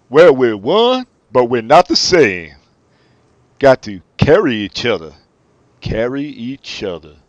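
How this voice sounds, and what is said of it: Imitates another person's voice. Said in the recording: “do Michael Stipe doing a Bono impression ... Modern day Michael Stipe, not the mumble.”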